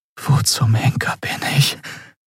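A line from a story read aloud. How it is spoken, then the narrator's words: Fearful whisper. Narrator (German): flüsterte sie mit Angst in der Stimme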